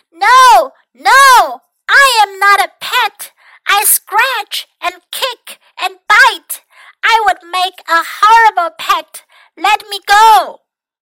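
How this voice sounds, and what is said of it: Loud, big yelling character voice. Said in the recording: “Mac yelled in a big, big voice”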